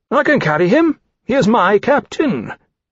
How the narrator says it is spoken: indignantly, all signs of limp torpor gone

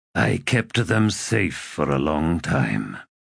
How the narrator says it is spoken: he said in a low voice

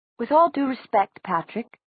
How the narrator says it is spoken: said Nazreen in her clipped accent

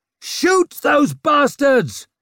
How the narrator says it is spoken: he roared

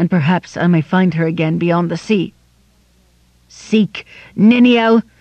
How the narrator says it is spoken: cried Turin

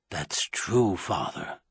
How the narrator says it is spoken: Halcombe said quietly

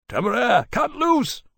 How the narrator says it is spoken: Lawrence shouted

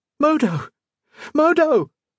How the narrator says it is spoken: Colette shrieked

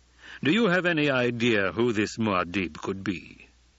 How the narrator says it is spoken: the Emperor asked

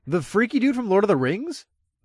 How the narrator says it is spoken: I scoffed

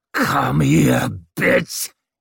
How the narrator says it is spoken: He roared at her

